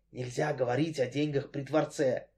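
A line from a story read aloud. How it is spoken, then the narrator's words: Lowered voice whisper. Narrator (Russian): понизив голос, прошептал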